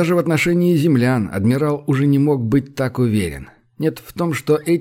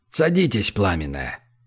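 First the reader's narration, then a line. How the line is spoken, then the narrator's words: Quiet command. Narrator (Russian): негромко приказал адмирал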